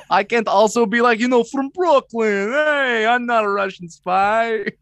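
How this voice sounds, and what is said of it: Put-on Russian-Brooklyn accent. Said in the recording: “that Brooklyn 10 out of 10 ... I did a Russian doing a Brooklyn accent as an American from Maine who's not super good at accents”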